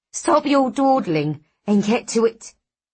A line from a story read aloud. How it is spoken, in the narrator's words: the woman snaps